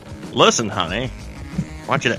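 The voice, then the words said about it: Weak put-on Maine accent. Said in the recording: “that's not a very good Maine accent.”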